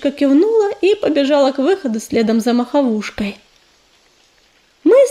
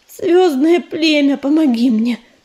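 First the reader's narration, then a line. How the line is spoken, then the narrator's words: Silent pleading. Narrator (Russian): беззвучно взмолилась целительница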